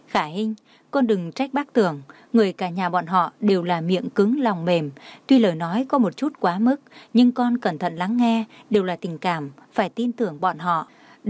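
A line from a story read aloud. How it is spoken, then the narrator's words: Smiling. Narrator (Vietnamese): Trang Tĩnh Vũ mỉm cười nói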